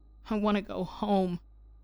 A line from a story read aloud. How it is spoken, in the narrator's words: Kai whimpered